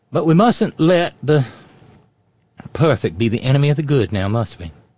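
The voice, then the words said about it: Put-on accent. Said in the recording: “why have I fallen into that accent?”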